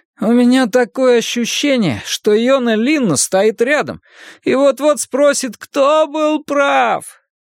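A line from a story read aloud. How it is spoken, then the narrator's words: Groaning. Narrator (Russian): простонал Фриппе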